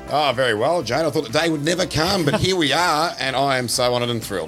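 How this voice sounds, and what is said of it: Polished radio announcer voice. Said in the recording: “You actually do have a radio voice, don't you?”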